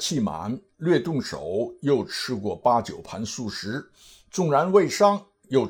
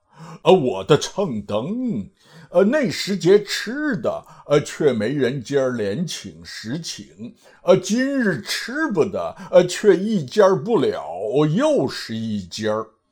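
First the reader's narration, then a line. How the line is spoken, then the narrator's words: Laughing. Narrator (Chinese): 八戒笑道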